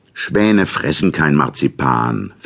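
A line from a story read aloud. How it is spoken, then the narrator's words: Rough interjection. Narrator (German): fiel Fritz etwas rau ein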